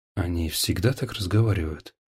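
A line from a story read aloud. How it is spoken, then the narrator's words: Quiet whisper. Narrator (Russian): он тихо прошептал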